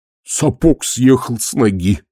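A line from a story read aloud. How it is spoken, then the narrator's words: Moaning. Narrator (Russian): простонал Колонн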